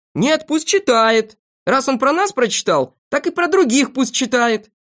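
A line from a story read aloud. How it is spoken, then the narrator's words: Several voices shouting. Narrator (Russian): Знайка, Торопышка и Авоська кричали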